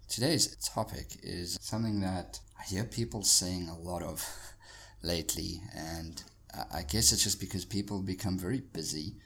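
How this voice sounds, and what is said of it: Croaky, husky hoarse voice. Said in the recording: “my voice being a little bit croaky. A little more husky than usual, just because I've been recovering from sore throat”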